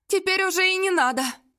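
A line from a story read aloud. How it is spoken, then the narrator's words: Woman's heavy sigh. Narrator (Russian): тяжело вздохнула женщина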